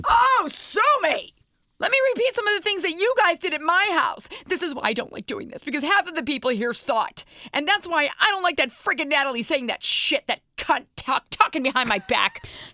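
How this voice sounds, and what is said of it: Angry yelling. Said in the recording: “Stop yelling, Mama. Stop yelling. Calm down. You're upset.”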